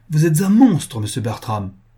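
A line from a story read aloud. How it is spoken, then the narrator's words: Exclaiming. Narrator (French): s'écria Caroline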